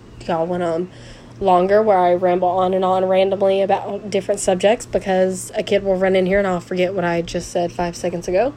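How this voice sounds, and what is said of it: Raspy voice. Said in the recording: “my voice is a little raspy still. It'll become normal, hopefully”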